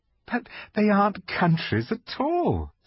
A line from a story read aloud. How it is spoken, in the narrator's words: said Lucy, almost laughing